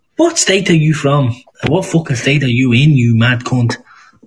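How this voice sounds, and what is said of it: Scottish accent. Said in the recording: “This is my normal accent. I'm from Scotland. ... this is my real accent”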